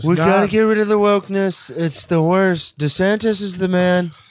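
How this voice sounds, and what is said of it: Donald Trump impression. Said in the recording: “Who are you doing? ... I can't do a DeSantis impression. I can do a Trump impression. ... so weird to have a Trump breakout”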